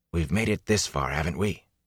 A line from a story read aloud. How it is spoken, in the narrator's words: He asked in a hoarse whisper